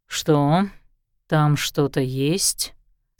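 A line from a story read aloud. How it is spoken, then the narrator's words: Low purring voice. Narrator (Russian): сказал ей Лещинский в полголоса, почти промурлыкал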